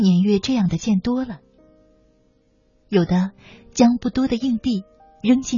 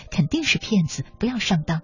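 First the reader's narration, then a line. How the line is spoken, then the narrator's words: Low muttering. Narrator (Chinese): 有的小声嘀咕说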